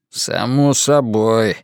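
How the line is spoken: Gloomy reply. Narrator (Russian): мрачно ответил Ллойд

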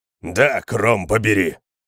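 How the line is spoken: Growled. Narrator (Russian): прорычал кемериец

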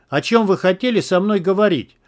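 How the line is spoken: Loud question, huntsman. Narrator (Russian): громко спросил егерь

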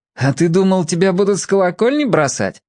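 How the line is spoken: Laughing. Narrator (Russian): засмеялся Федя

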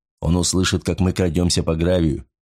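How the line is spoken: Lowered voice objection. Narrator (Russian): возразил боцман, еще более понизив голос

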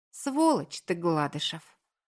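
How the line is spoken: Tender breathy speech. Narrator (Russian): ласково выдохнула она

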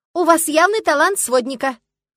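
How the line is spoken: Loud breathless blurt. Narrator (Russian): выпалила громко, задыхаясь от быстрого бега

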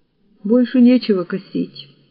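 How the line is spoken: Sigh. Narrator (Russian): вздохнул он

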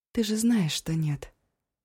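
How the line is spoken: Almost gentle. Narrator (Russian): почти мягко сказала Эва

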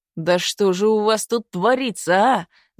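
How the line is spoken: Angry yell. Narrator (Russian): заорал Изюбрь, краснея от злости

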